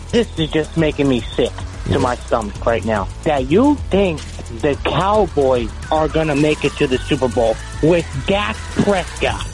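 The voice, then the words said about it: New Jersey Italian-American accent. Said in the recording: “That accent, it's wonderful. Are you doing that, or that's real? ... I'm from New Jersey. I'm Italian.”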